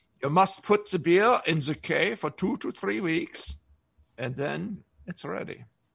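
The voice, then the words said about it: Bad fake German accent. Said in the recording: “that's a horrible German accent I just did”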